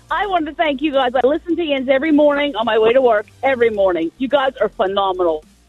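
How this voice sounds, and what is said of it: Pittsburgh regional American accent. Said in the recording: “I think she's from Pittsburgh. I heard a Yens, and I hear the accent.”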